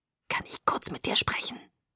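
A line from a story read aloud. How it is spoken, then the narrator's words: Quiet hiss. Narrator (German): zischte leise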